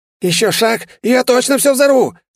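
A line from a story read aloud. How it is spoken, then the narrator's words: Hysterical shout. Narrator (Russian): истерично выкрикнул он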